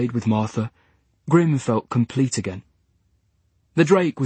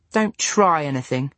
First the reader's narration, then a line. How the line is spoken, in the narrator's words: said Lewis